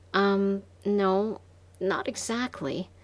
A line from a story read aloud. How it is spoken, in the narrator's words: I stammered